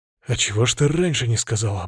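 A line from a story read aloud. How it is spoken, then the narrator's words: Grumbled. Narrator (Russian): буркнул я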